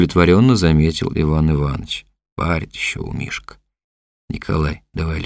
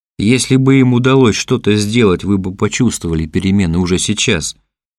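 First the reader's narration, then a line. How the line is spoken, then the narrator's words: Desperate shout. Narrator (Russian): отчаянно крикнула Ксения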